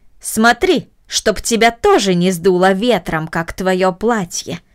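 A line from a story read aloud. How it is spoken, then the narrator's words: Irritated. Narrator (Russian): раздраженно сказала Мина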